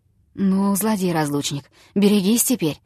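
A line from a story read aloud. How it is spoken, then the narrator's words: Mumbling. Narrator (Russian): пробормотал он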